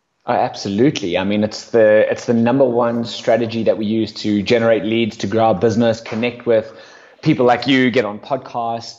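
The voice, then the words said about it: South African accent. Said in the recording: “Where's the accent from? You don't sound very American. ... No, I'm definitely not American. South Africa, actually.”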